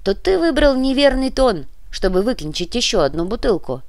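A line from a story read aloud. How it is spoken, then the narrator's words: Grumbling. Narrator (Russian): проворчал в ответ Муба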